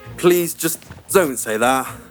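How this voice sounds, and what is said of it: British accent. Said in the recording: “Loving the British accent.”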